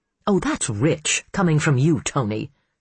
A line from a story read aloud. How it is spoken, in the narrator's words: she sneered